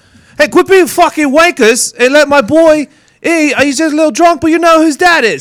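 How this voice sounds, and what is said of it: Fake English accent. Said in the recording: “take your fake accent ... fake accent. Fake. ... My friend is in town from England”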